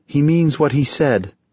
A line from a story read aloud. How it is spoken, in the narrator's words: Angeline said sadly